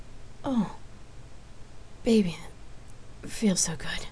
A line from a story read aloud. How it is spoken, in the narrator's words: Rain moaned huskily